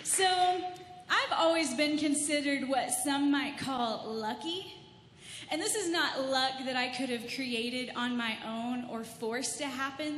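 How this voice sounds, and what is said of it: Mild Texan-Southern accent. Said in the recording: “I have a little bit of an accent. ... It's a little Texan, a little Floridian, a little Canadian.”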